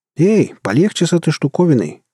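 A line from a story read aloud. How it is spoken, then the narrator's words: Frightened shout. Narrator (Russian): крикнул незнакомец, испуганно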